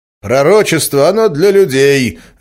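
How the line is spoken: Barked. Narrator (Russian): рявкнул учитель

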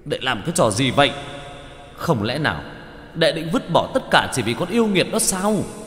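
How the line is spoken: Tiger's growling yell. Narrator (Vietnamese): Bạch Hổ gầm gừ, vẫn trong hình hài của hổ trắng mà hét

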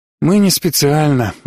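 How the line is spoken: Sighing. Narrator (Russian): вздохнул Каппа

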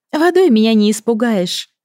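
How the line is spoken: Laughing. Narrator (Russian): засмеялась она

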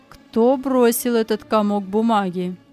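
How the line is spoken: Calm cold question. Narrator (Russian): Спокойно, учитель холодно спросил

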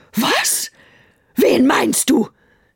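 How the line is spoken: Shouted. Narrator (German): schrie Brünhilde

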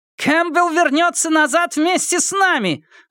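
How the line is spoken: Yell. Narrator (Russian): заорала Анжелина

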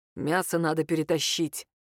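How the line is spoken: Muttered. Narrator (Russian): буркнул Юрий

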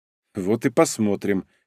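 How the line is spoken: Smirking grunt. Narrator (Russian): хмыкнул я

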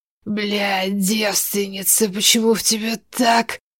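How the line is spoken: Growl. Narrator (Russian): Брант рыкнул

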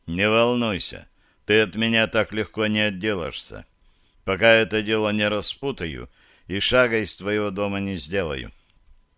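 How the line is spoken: Gloomy grumbling mutter. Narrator (Russian): горестно мрачно буркнул

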